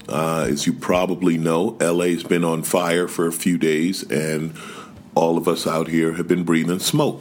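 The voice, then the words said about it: Raw, slightly rough voice. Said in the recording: “forgive my voice ... my throat's a little raw, so I may sound a little funny”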